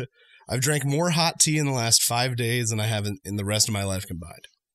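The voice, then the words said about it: Hoarse voice close to giving out. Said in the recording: “my voice is on the edge of going out ... a little bit of a low-grade fever”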